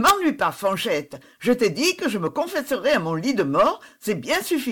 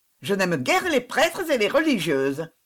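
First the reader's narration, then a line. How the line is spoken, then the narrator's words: Disdainful reply. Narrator (French): répondait mademoiselle Constance d'un ton dédaigneux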